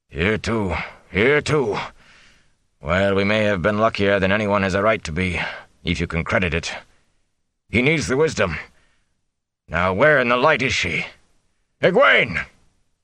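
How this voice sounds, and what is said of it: Hoarse, smoky character voice. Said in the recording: “smoke-hoarse voice”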